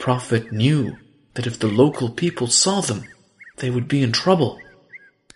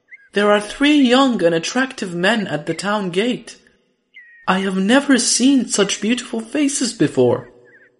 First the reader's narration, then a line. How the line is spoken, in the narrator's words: she cried